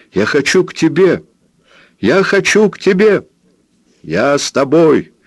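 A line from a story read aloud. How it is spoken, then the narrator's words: Shouting. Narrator (Russian): закричал Роберт Джордан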